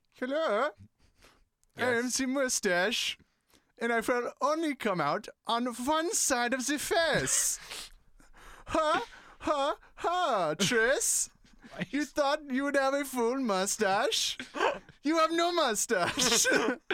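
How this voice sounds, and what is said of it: Put-on Eastern European accent. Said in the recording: “Why is my mustache Eastern European?”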